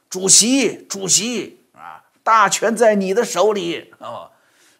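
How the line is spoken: Loud, tearful. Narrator (Chinese): 周恩来……掉眼泪，大声说

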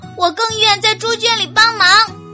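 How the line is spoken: Shouting. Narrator (Chinese): 伊莎喊道

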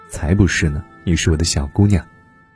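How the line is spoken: Gentle. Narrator (Chinese): 小她两年的男友突然温柔地说

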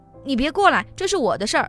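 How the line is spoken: Roaring. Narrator (Chinese): 他朝我吼了一声

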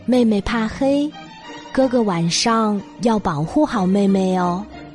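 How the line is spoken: Gentle. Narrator (Chinese): 熊妈妈温柔的说

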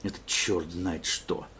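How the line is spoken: Grumbled. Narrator (Russian): проворчал

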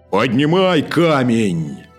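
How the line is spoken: Terrifying shout. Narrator (Russian): закричал магребинец страшным голосом

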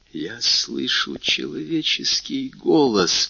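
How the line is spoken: Whisper. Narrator (Russian): прошептал он

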